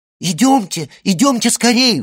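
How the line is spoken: Excited exclamation. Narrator (Russian): взволнованно воскликнула Жюли

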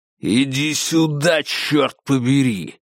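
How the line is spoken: Growl. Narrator (Russian): прорычал Конгден

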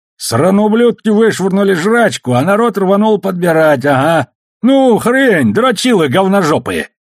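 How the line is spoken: Howling. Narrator (Russian): Рыжий взвыл

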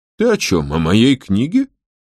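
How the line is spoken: Offended question. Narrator (Russian): спросил Финолео обиженным тоном

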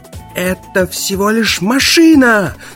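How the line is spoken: Yelling. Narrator (Russian): заорал брат Фарвелл

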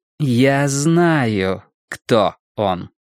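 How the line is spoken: Slow. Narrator (Russian): медленно проговорила Алиса

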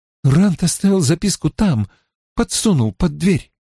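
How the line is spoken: Tense voice. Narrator (Russian): сказала Мин напряженным голосом

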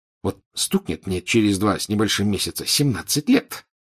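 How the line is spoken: Grumpy mutter. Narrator (Russian): сварливо пробормотал Рон

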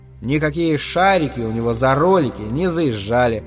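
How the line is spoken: Plain. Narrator (Russian): сказал папа

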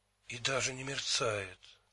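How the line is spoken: Whisper. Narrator (Russian): прошептала Энн

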